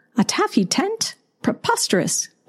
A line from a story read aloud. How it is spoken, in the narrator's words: Penelope exclaimed